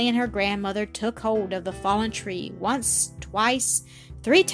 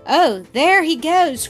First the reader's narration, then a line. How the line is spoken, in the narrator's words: cried Millie, much disappointed